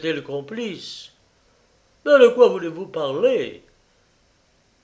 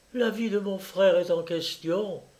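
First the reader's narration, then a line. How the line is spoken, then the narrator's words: Murmured. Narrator (French): murmura-t-elle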